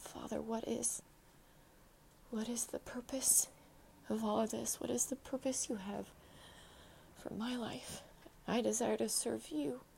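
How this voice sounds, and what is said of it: Emotional, choked-up voice. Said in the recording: “I'm still getting emotional”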